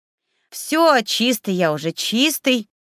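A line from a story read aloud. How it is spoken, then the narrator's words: Indignant nightingale trill. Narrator (Russian): возмущенно протерлинкал соловей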